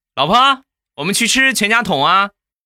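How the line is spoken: Loud shout. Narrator (Chinese): 我在后边大声的喊道

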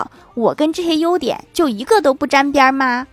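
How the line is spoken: Furious roar. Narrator (Chinese): 女友怒吼道

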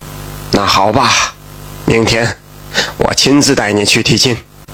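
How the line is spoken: Sighing. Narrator (Chinese): 马大福叹了口气

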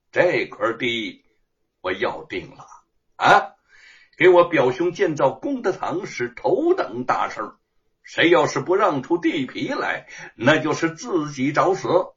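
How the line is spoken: Cold sneering laugh. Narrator (Chinese): 他的脸容扭曲的，呵呵冷笑着说

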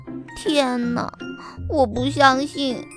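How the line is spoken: Soft whisper. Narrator (Chinese): 黛拉小声说

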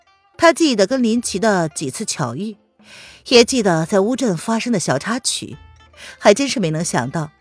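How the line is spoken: Smiling, calm and detached. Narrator (Chinese): 凌渊含笑的，他淡淡的说道

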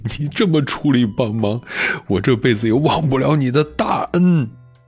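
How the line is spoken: Crying. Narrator (Chinese): 孙膑哭着说

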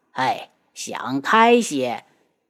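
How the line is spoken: Sighing. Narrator (Chinese): 六皇叔叹气

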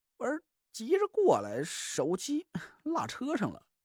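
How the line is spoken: Awkward laugh. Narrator (Chinese): 蒋亮尴尬的一笑

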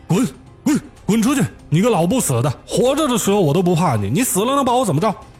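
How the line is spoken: Furious yelling. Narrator (Chinese): 气急败坏的大喊

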